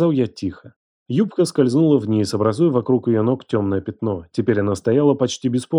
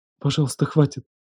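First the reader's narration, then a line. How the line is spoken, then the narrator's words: Whispered pleading. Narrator (Russian): шепотом замолилась она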